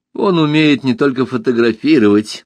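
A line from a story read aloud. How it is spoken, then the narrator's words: Sarcastic. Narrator (Russian): язвительно сказала Алиса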